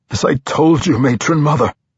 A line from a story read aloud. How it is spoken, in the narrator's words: he said desperately